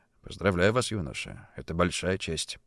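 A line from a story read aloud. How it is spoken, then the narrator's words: Quiet, respectful. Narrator (Russian): с уважением, тихо произнес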